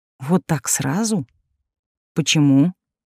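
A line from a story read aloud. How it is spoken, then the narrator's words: Calm, suppressed irritation. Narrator (Russian): спросила спокойно, хотя внутри плеснулось раздражение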